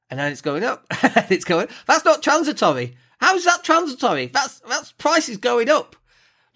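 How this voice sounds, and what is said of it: Excited, high-pitched voice. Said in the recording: “my voice is getting high pitched because I'm getting all excited by it”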